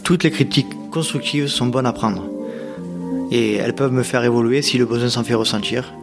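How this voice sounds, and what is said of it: Nord-Pas-de-Calais French accent. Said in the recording (French): “mon accent du Nord-Pas-de-Calais”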